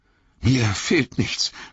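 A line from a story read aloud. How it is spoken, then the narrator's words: Gasped, breathless. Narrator (German): keuchte Frodo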